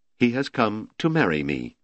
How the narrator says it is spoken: Franziska said softly

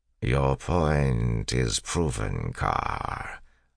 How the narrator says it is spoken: the Lord Ruler said, sitting wearily

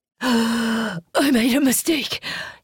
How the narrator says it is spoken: gasped

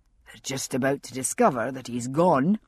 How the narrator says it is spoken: Jamie said, a trifle grimly

